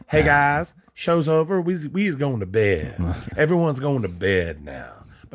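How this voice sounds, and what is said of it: Imitates another person's accent. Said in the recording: “when I do Leanne's accent, I think I'm doing a black person's accent ... you did say Wheeze is going to bed ... She doesn't like the way I do her accent ... You don't do my voice right”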